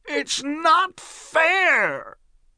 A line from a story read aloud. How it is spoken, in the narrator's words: he screamed at the top of his voice